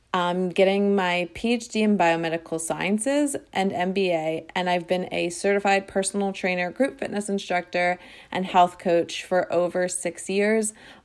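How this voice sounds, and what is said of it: Kardashian-style speaking voice. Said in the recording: “I talk like a Kardashian”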